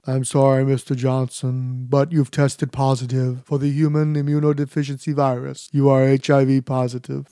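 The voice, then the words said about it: Cold droning monotone. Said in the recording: “The doctor droned on in his cold monotone.”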